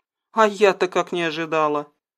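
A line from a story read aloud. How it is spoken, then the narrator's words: Embarrassed mutter. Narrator (Russian): пробурчала девушка, отводя глаза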